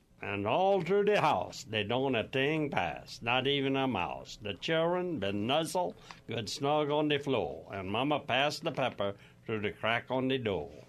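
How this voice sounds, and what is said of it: Cajun French accent. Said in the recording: “reading in their Cajun-French accent”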